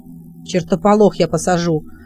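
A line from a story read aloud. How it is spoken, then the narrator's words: Angry reply. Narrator (Russian): отозвался Робин сердито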